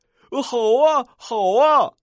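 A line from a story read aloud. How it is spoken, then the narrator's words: Happy exclamation. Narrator (Chinese): 瀑布快乐的叫起来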